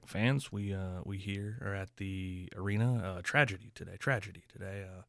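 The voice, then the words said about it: Serious JR wrestling announcer impression. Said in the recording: “that's my JR voice. Serious voice when serious things happen.”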